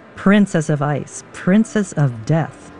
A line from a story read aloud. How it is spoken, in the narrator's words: she responds haughtily